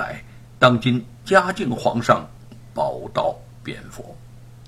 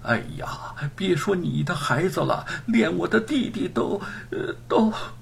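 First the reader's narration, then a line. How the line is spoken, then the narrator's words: Choked up, breaking off. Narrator (Chinese): 他哽咽着说不下去了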